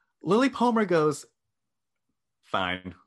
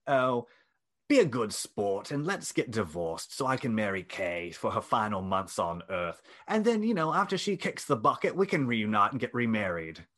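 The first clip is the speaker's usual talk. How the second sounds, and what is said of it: Inconsistent put-on accent. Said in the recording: “that accent was all over the place.”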